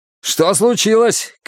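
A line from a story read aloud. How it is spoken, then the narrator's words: Shouting. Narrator (Russian): крикнул он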